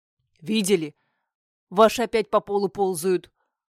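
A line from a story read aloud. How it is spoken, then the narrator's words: Deep old man's bass. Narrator (Russian): Пробасил дед Кукуруз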